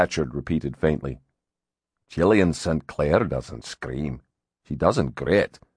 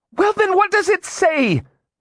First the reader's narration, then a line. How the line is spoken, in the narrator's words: She snapped